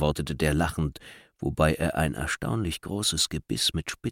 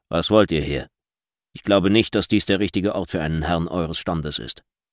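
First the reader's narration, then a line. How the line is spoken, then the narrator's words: Gruff foreman asking. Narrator (German): Vorarbeiter, fragte ihn barsch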